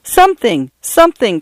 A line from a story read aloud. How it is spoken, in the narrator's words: cried Paula